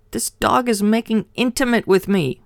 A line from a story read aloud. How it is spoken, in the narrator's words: yelled